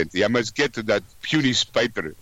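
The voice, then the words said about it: Exaggerated put-on Russian accent. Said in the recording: “I'll even use stupid Russian accent.”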